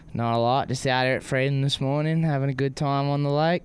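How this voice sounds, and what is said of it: Rural Australian country accent. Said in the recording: “He kind of has like a country accent for an Australian. Sometimes it's hard to understand what he says”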